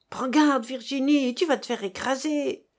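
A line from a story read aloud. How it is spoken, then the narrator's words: Shouting a warning. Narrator (French): lui cria ce bon monsieur Hilaire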